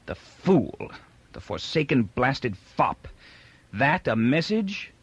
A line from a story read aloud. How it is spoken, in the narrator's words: Barr cried bitterly